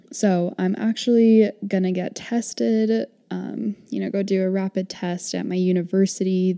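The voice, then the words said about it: Sick, sore-throat voice. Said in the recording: “my voice sounds a little bit awful ... I have like a sore throat”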